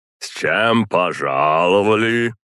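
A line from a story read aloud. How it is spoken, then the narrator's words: Booming rolling man's voice. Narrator (Russian): Невероятно зычным и в то же время раскатистым голосом поинтересовался мужчина с посохом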